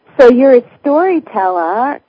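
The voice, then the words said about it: Put-on Boston accent. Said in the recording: “that was my Boston accent”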